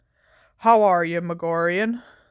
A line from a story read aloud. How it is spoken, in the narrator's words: said Hagrid wearily